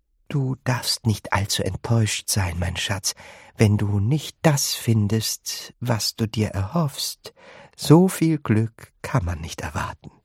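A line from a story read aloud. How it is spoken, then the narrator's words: Gentle. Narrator (German): Bucket sanft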